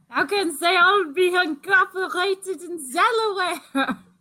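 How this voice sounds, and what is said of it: Bad put-on French accent. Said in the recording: “with a French accent ... It was awful.”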